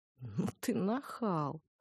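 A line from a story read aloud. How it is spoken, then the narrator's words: Snorting. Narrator (Russian): фыркнула я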